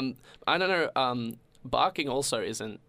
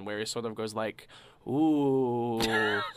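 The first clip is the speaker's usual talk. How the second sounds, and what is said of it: Imitates a dog's sound. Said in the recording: “That's my best impression of it”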